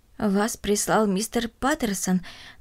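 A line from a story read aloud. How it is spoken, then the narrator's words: Trembling elderly voice. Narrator (Russian): дрожащим голосом спросила бабушка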